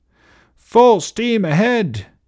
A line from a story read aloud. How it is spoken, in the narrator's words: yelled